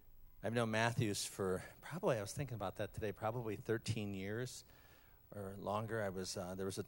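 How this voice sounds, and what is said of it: Usual voice. Nothing is said of it.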